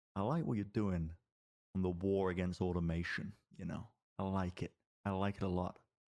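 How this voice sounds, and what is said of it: Lowered, hushed confiding voice. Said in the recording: “lower my voice, hush, you know, bring him in a little bit”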